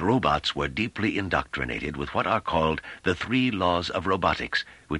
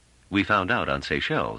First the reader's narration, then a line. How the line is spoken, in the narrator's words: said Trevise dryly